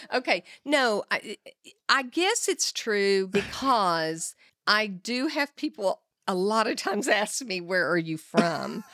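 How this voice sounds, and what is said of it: Texas accent. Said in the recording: “you don't think you have an accent ... I say Texas, they're like, yeah, I knew it was”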